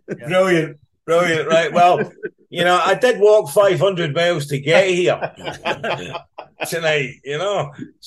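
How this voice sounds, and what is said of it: Scottish accent. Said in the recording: “I can't get rid of this accent... this bloody accent... I love a Scottish accent”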